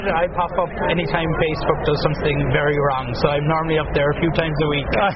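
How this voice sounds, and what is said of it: Irish accent. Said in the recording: “you're the guy with the Irish accent”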